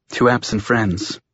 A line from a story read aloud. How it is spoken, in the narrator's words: she whispered